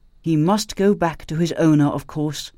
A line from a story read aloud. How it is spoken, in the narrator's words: she said, making her voice firm